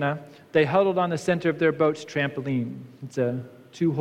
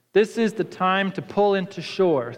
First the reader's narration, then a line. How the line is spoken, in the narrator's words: Thornton said